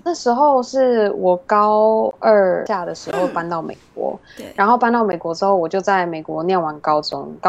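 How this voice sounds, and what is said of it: Mandarin with overseas-influenced accent. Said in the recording (Chinese): “听 ... 说中文的口音就大概知道，她有一她以前曾经住过国外”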